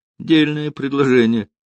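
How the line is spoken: Laughing. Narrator (Russian): засмеялся Рокоссовский

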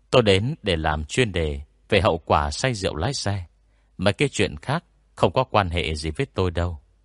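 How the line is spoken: Smiling. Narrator (Vietnamese): Lư Minh Dương mỉm cười

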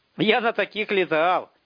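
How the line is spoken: Shouting from inside. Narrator (Russian): крикнул изнутри Растафарыч

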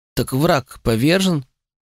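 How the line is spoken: Uncertain mumble. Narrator (Russian): Неуверенно промямлила она

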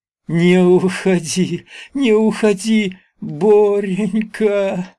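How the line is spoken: Moaning plea. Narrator (Russian): Стонала она

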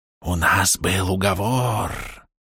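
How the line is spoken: Whisper close to ear. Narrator (Russian): раздался шепот прямо у моего уха

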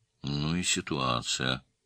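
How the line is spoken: Sighing. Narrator (Russian): вздохнул Альберт Петрович

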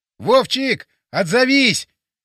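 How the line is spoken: Shouting. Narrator (Russian): прокричал

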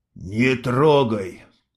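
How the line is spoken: Hoarse. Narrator (Russian): хрипло сказал Мустафа

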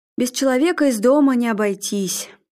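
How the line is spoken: Sigh. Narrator (Russian): Арнольд вздохнул

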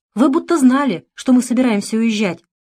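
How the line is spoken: Exclamation. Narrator (Russian): воскликнула Вера

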